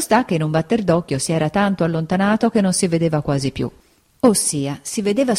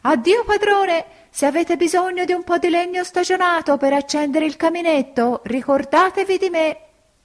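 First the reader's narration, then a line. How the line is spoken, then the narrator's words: Laughing, shouting louder. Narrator (Italian): rideva urlava più forte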